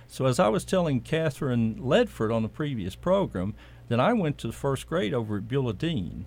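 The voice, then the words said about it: Southern US accent. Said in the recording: “So what you're getting is a northern name, with a southern accent.”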